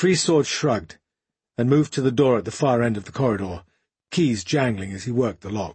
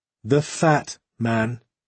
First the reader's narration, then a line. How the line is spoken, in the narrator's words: he added slowly